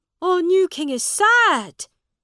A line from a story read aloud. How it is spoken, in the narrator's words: shouted one man